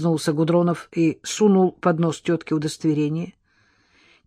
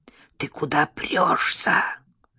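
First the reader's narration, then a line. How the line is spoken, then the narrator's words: Hissing woman. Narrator (Russian): зашипела на него приземистая тетка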